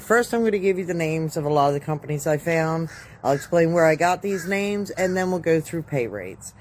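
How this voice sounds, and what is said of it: Sick, under-the-weather voice. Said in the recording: “Please excuse the voice. I'm a little under the weather.”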